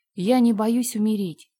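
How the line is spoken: Plain. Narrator (Russian): сказала она

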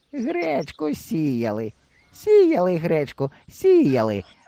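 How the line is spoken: Joyful. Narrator (Ukrainian): радісно кивала Триндичка

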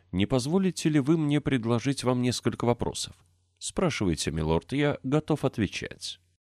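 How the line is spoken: Respectful tone. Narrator (Russian): сказал почтительным тоном

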